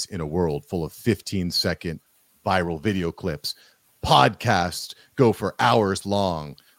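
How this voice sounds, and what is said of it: Dramatic movie trailer voice. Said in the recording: “put on my movie voice”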